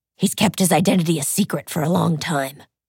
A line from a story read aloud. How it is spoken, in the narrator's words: Ziva croaked